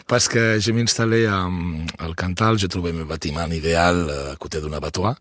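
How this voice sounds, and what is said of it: Spanish or Catalan-sounding French accent. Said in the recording (French): “n'a pas l'accent cantalou, cantalien. ... c'est un accent plus espagnol, voire catalan”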